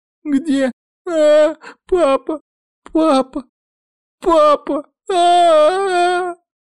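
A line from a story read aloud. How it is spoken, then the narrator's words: Child sobbing. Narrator (Russian): Рыдала маленькая Аой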